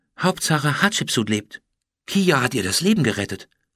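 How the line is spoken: Whispering. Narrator (German): flüsterte Julian

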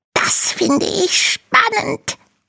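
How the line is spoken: Small creature hissing. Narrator (German): faucht der kleine Drache

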